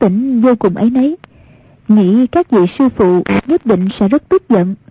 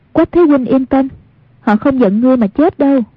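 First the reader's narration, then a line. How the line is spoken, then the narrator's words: Smiling, reassuring. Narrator (Vietnamese): Một niệm từ mỉm cười nói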